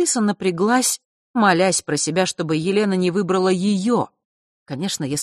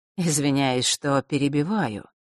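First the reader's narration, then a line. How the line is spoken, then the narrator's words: Soft. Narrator (Russian): мягко начал он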